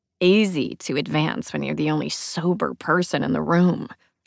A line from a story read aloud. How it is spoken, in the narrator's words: she mutters, some teeth behind it